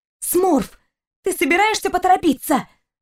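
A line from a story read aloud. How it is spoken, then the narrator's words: Angry girl hissing. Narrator (Russian): Зло прошипела девушка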